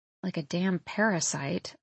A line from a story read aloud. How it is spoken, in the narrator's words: I murmur